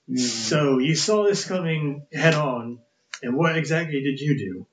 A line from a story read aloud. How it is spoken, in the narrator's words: I screamed